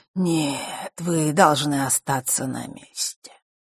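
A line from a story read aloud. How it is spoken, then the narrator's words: Calm reply. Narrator (Russian): спокойно ответил тот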